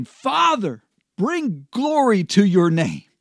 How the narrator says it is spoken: shouted at them

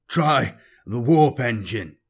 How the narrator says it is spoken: he gasped

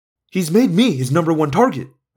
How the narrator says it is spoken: I snapped

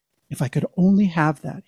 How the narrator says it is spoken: he whispered

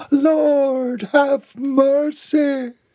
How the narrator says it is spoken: she shrieked along with the children

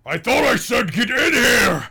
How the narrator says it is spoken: He bellows in Dwarven

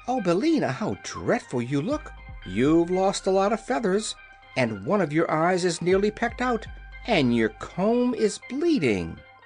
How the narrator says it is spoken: The girl exclaimed

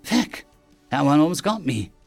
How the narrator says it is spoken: Jess exclaimed, the terror of how close she'd come to being shot in the back making her feel giddy

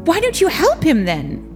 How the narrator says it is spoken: Robert blurted out

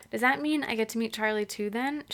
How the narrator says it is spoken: She asked eagerly

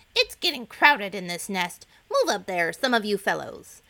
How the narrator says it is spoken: Cluckety Cluck, the oldest egg of all, called out angrily

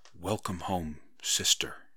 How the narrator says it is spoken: Parrot Girl whispered

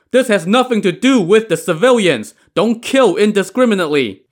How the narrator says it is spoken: Behind him, Chao Gai shouted

